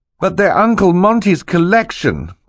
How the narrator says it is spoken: Klaus cried

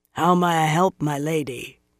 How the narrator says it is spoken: asked in a raspy voice

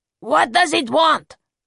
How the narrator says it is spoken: Blanco yelled at him out of the window

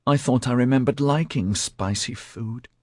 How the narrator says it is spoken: he mumbled

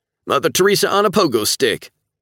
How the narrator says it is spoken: Levi shouts

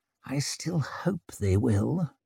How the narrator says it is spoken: muttered Orso

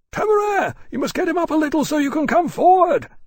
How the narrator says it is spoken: Lawrence shouted again

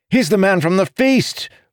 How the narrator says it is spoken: cried

